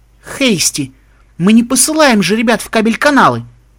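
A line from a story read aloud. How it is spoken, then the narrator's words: Exclaiming. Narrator (Russian): воскликнула Отом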